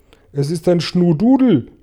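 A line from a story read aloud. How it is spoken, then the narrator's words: Police chief calling out. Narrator (German): rief der Polizeichef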